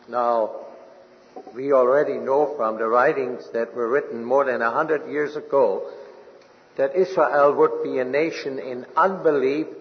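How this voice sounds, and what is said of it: German accent. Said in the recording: “he noticed my German accent.”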